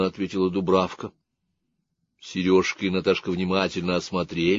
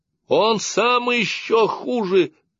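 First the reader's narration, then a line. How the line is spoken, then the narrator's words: Shout. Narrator (Russian): крикнула Дубравка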